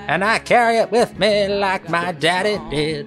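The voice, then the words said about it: Sung impression of a singer. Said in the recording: “my Jim Croce impression”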